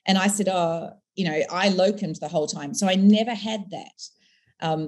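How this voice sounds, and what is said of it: Foreign accent. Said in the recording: “I have an accent, I'm foreign. Maybe it's an accent people like, but it's still a foreigner.”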